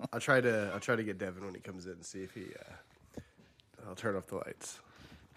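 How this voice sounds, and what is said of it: Congested, sick-sounding voice. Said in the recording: “Do you feel like you have a sexier voice ... I think you sound sexier ... it was all congestion, and now it's cough and congested”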